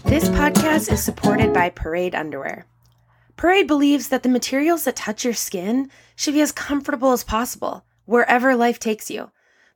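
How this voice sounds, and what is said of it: Scratchy, slightly off voice. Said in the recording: “my voice is a little off this episode ... my voice is a little scratchy”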